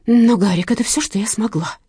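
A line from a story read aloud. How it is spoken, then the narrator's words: Exclamation. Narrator (Russian): воскликнула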